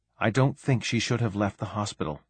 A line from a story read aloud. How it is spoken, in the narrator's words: muttered Saray